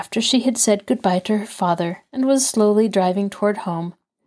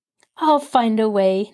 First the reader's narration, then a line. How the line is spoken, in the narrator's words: Nancy laughed